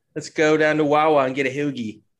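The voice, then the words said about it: Put-on Delco Philadelphia-area accent. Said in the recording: “a Delco, Montgomery County accent”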